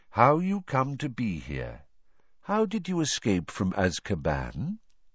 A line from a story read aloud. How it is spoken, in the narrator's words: Crouch took a deep, shuddering breath, then began to speak in a flat, expressionless voice